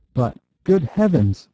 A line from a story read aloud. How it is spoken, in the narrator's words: cried the Duchess, almost in hysterics